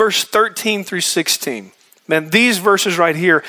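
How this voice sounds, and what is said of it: Usual voice. Nothing is said of it.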